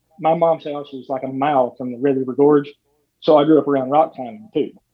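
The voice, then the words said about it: Southern Eastern Kentucky accent. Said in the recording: “people can probably tell by your accent that you're not from Wisconsin... Your accent sounds like home to me”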